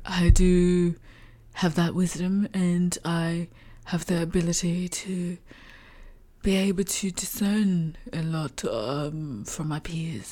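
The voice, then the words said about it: Attempted British accent. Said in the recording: “trying to do a British accent ... my impersonation”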